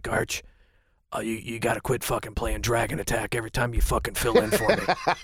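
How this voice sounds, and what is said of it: Imitates another person's voice. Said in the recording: “he goes in his voice like this ... good impression ... That's actually a very good impression ... That's really good.”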